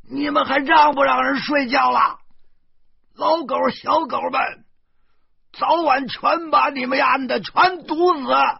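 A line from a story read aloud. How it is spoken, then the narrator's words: Angry roar. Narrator (Chinese): 隔壁阳台忽然传来一声咆哮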